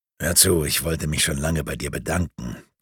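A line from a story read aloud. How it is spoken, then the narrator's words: Quiet. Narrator (German): begann leise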